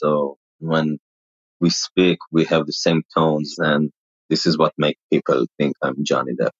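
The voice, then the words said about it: Israeli accent, deep mumbling voice. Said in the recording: “My accent is like because of the Israeli language. So I have the accent and the mumbling and my deep voice.”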